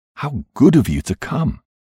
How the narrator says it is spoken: cried out joyously

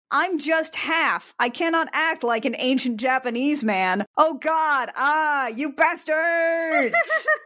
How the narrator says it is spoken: He shouts

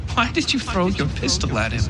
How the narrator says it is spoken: Yumiko asked him, chuckling lightly to herself

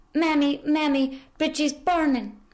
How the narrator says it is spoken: her daughter screaming

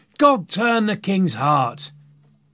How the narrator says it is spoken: others were shouting

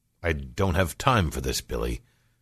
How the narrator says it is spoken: he sighed

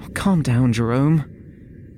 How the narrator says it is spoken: he pleaded

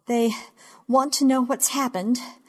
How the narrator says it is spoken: I say, breathing too hard, much too fast, gasping

